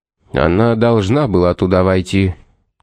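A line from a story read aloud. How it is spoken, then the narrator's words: Tired priest speaking. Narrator (Russian): устало проговорил священник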